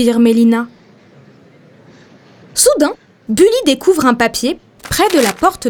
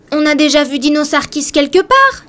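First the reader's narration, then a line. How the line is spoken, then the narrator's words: Exclamation. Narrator (French): Bully s'écrie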